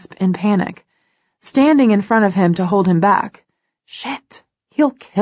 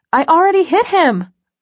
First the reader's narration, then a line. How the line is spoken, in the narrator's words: I shout over the music